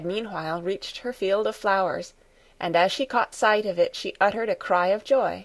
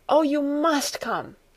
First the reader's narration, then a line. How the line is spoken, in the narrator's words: she called out as soon as she came in sight